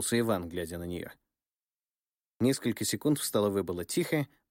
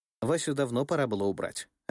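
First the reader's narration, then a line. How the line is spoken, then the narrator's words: Plain. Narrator (Russian): ответила она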